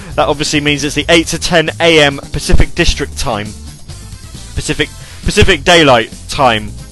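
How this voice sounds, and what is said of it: Poor put-on American accent. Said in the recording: “I still totally can't do an American accent anymore. I used to be able to, but then I kind of forgot. It's a bit crap.”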